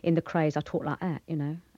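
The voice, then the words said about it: Cockney accent. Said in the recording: “I'll do a bit for you in Cockney”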